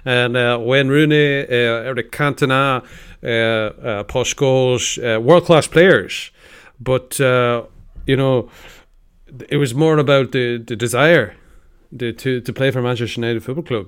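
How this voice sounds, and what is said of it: Impression of Sir Alex Ferguson. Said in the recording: “I'd like to ask you, Sir Alex ... he has impersonated you”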